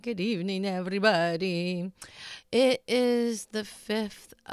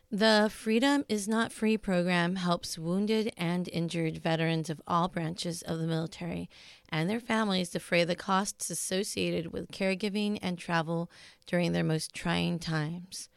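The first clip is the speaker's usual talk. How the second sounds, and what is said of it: Neutral DJ announcer voice. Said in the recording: “put on my neutral DJ voice”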